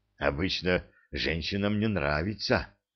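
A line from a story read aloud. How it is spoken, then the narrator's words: Hoarse. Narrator (Russian): хрипло проговорил Симон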